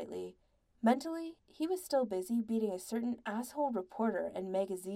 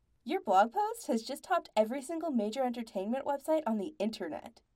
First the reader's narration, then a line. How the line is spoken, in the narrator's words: Andy said brightly in his ears